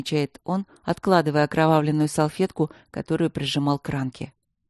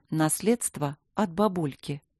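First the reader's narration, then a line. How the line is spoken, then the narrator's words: Calm. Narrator (Russian): спокойно говорит Симонова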